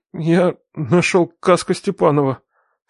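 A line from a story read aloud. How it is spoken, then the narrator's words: Trembling voice. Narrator (Russian): сказал дрожащим голосом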